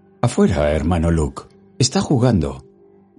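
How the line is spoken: Formal housekeeper. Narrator (Spanish): dijo el ama de llaves con tono formal

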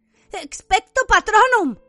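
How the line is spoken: Shouted. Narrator (Spanish): gritó Harry

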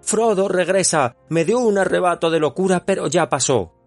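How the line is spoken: Shouting. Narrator (Spanish): Boromir gritó

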